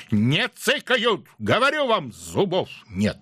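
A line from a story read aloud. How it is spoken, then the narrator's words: Barking snap. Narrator (Russian): Роман рявкнул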